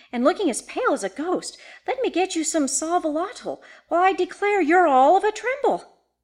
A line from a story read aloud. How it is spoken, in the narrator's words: she exclaimed